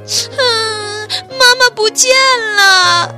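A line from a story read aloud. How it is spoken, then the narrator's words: Child crying loudly. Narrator (Chinese): 木木大声哭了起来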